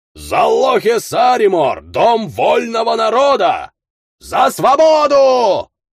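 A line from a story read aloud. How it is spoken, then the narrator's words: Smugglers yelling together. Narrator (Russian): заорали контрабандисты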